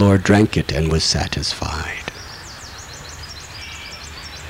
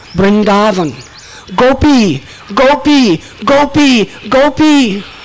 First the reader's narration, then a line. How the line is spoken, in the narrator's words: Repeatedly, time and again, he was screaming out